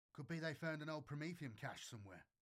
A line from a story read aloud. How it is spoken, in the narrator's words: Chelka said